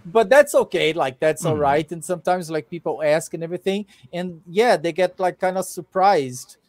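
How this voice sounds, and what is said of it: Brazilian-accented English. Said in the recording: “they feel that I have an accent, but they don't know exactly where from ... English-speaking Brazilian”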